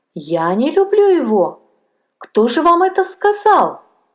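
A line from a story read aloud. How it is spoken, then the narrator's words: Female exclamation. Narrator (Russian): воскликнула она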